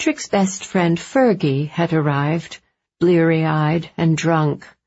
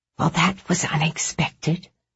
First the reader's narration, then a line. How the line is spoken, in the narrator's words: Julia whispered